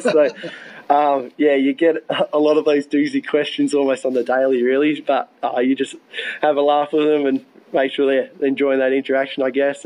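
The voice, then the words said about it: Australian accent. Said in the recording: “I'm probably the first Australian they've met ... people keep saying that I haven't caught an American accent yet”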